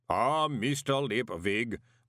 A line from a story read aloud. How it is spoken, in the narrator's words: boomed the voice of Mr